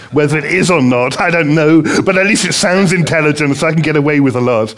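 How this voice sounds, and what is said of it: English accent. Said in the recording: “I've got an English accent... I haven't been able to lose the English accent”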